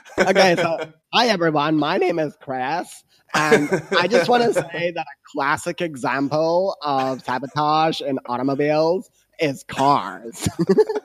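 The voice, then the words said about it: Bad Valley girl American accent. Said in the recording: “I'm going to try and do Chris's voice. ... Really badly and be a total Cali ... Sound like a Valley girl every time you try to do an American”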